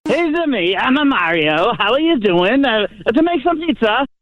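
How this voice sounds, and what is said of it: Mario impression. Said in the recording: “doing an impersonation of Mario ... I don't think that's very good at all.”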